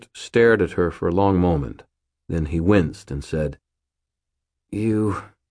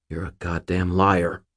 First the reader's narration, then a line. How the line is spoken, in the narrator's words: Murphy snarled